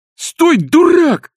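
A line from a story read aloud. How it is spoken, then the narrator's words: Shouting. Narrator (Russian): кричал Балаганов Козлевичу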